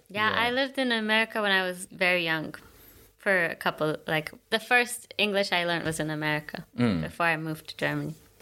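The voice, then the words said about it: Mixed American-British international accent. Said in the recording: “I thought she was like American or something... A little bit of international American twang in it... that sounded kind of British”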